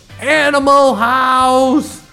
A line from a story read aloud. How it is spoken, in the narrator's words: One guy just kept yelling